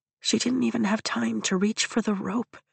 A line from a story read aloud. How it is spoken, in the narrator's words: I whisper